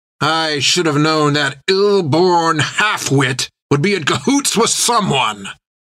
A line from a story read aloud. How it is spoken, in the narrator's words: spat Creech